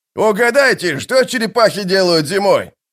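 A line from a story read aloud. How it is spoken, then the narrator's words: Shouted downward. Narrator (Russian): прокричал он вниз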